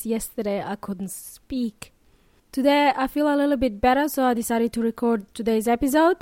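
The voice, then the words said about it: Hoarse, nearly lost voice. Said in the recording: “I sound a bit different... I came down with a cold over the weekend and guess what? I lost my voice... I know I sound a bit scary... My voice is not as it is normally.”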